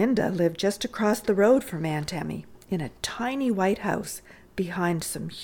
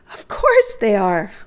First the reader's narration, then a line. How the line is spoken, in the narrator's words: laughed Clorinda